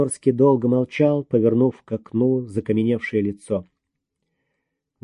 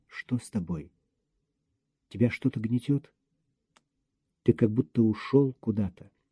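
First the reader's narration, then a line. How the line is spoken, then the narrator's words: Quiet question. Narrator (Russian): Лена тихо спросила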